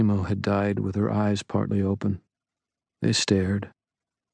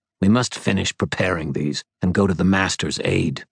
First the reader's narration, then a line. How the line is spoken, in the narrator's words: Tentacles Guy hissed